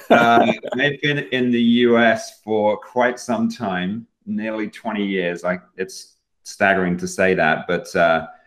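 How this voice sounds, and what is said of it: Speaks with a noticeable accent. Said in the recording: “I detect an accent ... the messed up accent”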